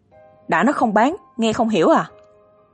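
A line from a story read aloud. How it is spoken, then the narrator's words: Roar. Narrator (Vietnamese): Y gầm lên một tiếng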